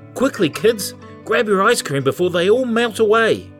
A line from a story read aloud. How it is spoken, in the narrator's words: he called out